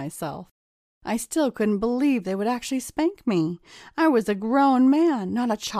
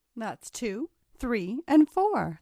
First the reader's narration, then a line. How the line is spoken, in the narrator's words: the girls all chimed together, giggling